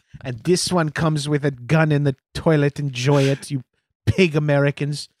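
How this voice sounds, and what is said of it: Put-on Dutch accent. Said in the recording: “Is that a Dutch accent? ... doing a Dutch accent ... wildly out of pocket with the Dutch accent”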